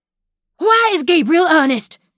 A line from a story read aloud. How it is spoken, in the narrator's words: he almost screamed